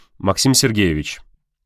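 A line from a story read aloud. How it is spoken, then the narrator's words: Forced firm request. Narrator (Russian): как можно более твердым голосом попросил Константин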